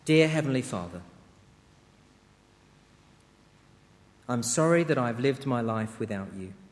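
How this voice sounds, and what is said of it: Slow, deliberate speech. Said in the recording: “I'll say it slowly so that you can echo it line by line”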